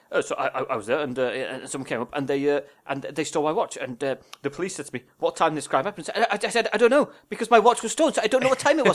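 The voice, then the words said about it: Poor imitation of another person's voice. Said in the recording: “terrible Michael McIntyre impression”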